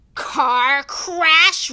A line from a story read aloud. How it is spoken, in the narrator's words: roared Hagrid, jumping up so angrily